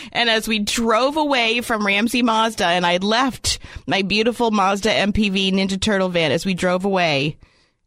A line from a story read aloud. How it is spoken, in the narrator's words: I cried